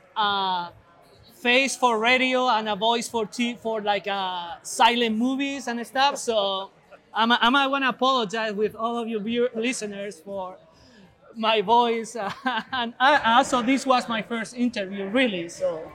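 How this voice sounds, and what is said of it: Noticeable non-native English accent. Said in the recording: “your English is extremely good ... You have a funny accent”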